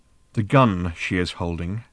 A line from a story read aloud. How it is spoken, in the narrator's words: said Ford quietly